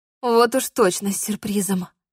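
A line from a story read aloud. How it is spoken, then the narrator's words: Grateful mutter. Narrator (Russian): пробормотала я, ощутив прилив благодарности к лекарю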